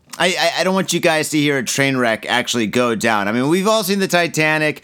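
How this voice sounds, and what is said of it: Slightly damaged, strained voice. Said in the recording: “my voice is a little bit messed up at the moment”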